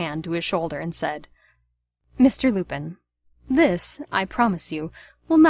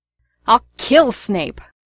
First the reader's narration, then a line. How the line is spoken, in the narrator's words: James roared